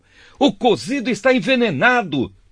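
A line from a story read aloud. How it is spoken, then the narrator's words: Alarmed shouting. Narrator (Portuguese): começaram a gritar para Eliseu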